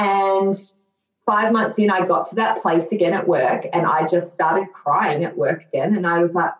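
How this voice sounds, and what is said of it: Usual voice. Nothing is said of it.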